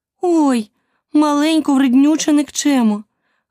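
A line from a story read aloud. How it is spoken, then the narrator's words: Exclamation. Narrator (Ukrainian): вигукнула Аліса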